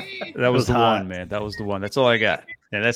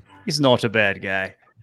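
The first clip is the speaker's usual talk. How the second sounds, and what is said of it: Weak put-on English accent. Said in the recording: “doing an English accent? ... that's not even any good.”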